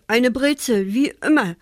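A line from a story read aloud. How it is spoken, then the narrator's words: Stuttering. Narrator (German): stotterte Achim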